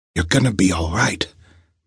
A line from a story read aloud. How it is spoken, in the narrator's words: Montario told him in a low voice